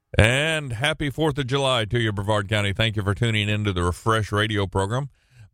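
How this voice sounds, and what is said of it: Deep, bassy just-woken-up voice. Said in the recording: “My voice sounds a little bassy, but that's just because I haven't talked to many people yet this morning. And so the voice will wake up sooner or later.”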